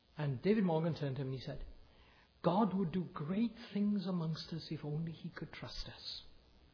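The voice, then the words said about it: Natural Welsh accent. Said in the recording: “a Welsh accent, do you really? I have one naturally.”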